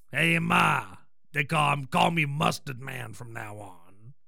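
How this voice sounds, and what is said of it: Gruff little-kid character voice. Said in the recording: “puts on this gruff voice.”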